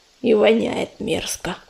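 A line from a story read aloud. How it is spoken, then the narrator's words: Disgusted grumbling. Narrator (Russian): проворчал коршун, брезгливо морща нос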